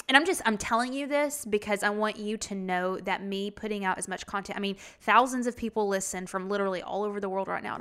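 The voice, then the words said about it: Strong accent. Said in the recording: “I don't know how y'all understand what I'm saying because I know my accent's not a joke”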